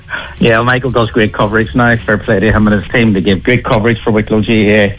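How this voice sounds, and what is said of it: Northern Irish Tyrone accent. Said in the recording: “Where's that accent from, by the way? ... I'm a Tyrone man”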